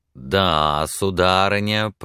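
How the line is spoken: Drawling. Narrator (Russian): протянул он

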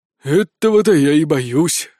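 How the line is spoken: Sighed. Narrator (Russian): вздохнул Спирт

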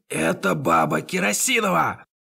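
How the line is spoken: Barking. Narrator (Russian): Гильза рявкнул

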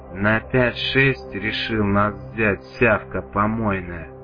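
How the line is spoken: Hiss masking confusion, thug. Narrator (Russian): прошипел один из амбалов, пытаясь скрыть замешательство

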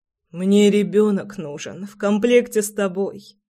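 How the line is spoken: Hoarse laugh. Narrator (Russian): Хрипло рассмеялся Прохор

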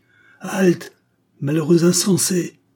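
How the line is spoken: Exclaimed. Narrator (French): s'écria-t-il

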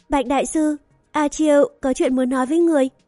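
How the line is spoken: Smiling. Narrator (Vietnamese): A Chiêu mỉm cười nói

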